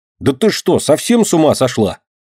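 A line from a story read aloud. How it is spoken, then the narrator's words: Angry shout. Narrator (Russian): Сердито прикрикнул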